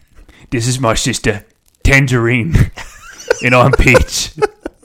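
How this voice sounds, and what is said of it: Put-on Australian accent. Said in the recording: “Australian accent.”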